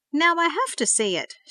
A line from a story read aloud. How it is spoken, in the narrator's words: exclaimed